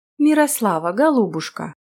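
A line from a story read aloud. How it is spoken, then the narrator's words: Ingratiating tone. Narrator (Russian): начал он своим обычным вкрадчивым тоном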